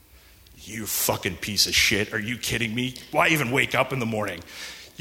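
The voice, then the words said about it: Menacing demon voice. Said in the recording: “this fucking demon voice”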